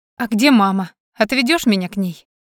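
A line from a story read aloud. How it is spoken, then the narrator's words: Abrupt change of subject. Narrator (Russian): Резко сменила она тему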